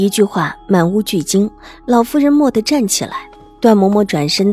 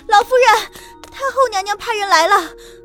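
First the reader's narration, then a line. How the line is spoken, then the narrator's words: Breathless flustered maid. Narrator (Chinese): 一个丫鬟气喘吁吁的，因为慌乱，禀报起来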